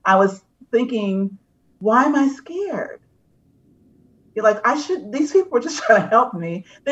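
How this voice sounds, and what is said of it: Emotional, choked-up voice. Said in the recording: “I'm getting emotional now.”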